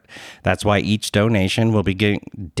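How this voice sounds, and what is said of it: Philadelphia accent slips out. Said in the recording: “my Philly accent came out”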